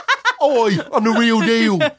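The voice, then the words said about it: Poor put-on British accent. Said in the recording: “great British accent ... It's horrible.”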